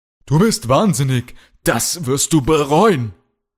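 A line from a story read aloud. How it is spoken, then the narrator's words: Shouted. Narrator (German): schrie Kalle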